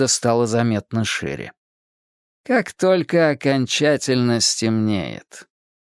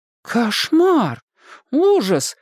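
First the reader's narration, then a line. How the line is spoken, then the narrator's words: Exclaiming. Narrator (Russian): воскликнула Сьюзан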